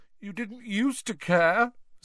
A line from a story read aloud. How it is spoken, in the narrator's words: said Myrtle, miserably